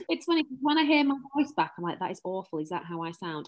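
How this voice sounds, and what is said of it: Strong northern English accent. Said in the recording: “you've got an accent ... I'm very, very northern. Very northern.”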